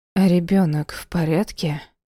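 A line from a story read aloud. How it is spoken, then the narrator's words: Hoarse question. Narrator (Russian): спросила осипшим голосом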